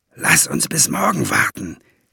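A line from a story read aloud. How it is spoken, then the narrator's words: Hiss. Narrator (German): zischte er ihm zu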